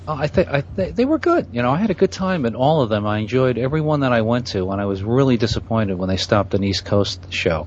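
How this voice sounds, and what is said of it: New York accent. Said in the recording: “with that accent, I'm pretty sure you hit the Boston one. ... I'm from New York. ... you have a very New York accent. ... It sounds a little more Boston to me there.”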